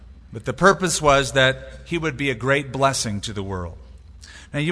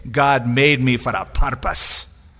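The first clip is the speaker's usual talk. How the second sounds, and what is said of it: Put-on Scottish accent. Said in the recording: “Of course, he wouldn't use a Scottish accent, of course.”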